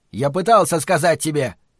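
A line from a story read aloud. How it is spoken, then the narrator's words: Shouted out. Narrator (Russian): выкрикнул он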